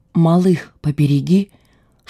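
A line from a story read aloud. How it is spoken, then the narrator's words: Whispered while running. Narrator (Russian): шепнула она мне на бегу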